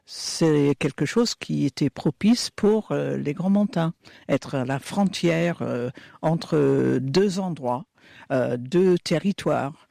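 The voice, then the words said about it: Slight Scottish accent speaking French. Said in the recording (French): “on l'entend un peu à votre accent ... je suis d'origine écossaise”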